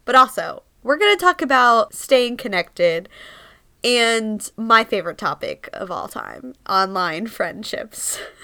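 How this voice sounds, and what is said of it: Stuffy, congested voice. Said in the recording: “I sound a little stuffy. I am sick”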